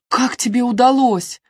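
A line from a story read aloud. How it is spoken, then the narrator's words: Laughing. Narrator (Russian): Леди Хелен засмеялась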